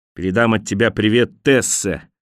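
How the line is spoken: Shout after someone. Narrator (Russian): крикнул он вслед Хелму

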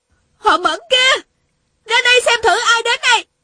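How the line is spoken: Shouting. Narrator (Vietnamese): Tiêu Uyển Nhi la lên

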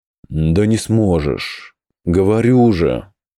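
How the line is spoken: Tired. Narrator (Russian): Уже устало произнес Бриар

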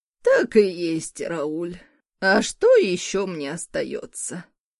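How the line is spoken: Heavy sigh. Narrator (Russian): Тяжело вздохнула Морган, добавила

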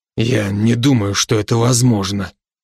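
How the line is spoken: Hoarse. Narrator (Russian): хрипло сказал Брок

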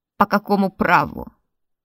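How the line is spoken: Wavering cry, comically unthreatening. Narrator (Russian): возопил господин, но голос его дрогнул, отчего получилось совсем даже не грозно, а скорее уж потешно

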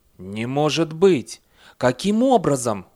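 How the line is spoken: Exclaiming. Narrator (Russian): воскликнул комиссар

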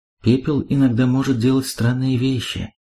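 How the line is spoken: Quiet speech. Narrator (Russian): тихо произнесла Мелиндра

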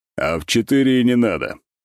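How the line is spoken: Snorting. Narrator (Russian): хмыкнул

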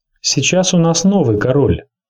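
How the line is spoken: Plain. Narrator (Russian): сказала Серсея Ланнистер

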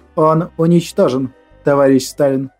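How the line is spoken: Calm. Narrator (Russian): спокойно продолжил Александр Николаевич свой доклад

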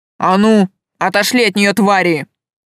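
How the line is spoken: Growl. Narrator (Russian): прорычал он

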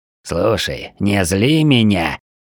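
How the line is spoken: Fierce hiss. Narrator (Russian): свирепее прошипел шаман

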